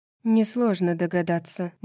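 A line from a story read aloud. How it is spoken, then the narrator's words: Gloomy tone. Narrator (Russian): мрачным тоном произнесла Гипаксия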